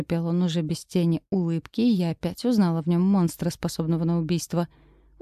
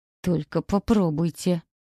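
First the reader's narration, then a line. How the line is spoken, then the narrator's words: Muttered through clenched teeth. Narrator (Russian): Процедила сквозь зубы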